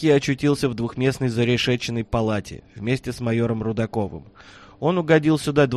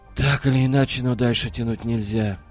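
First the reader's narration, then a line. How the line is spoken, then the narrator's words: Heavy sigh. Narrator (Russian): тяжело вздохнул Рудаков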